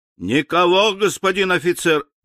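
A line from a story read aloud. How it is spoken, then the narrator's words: Loud shout downward. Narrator (Russian): Он громко крикнул вниз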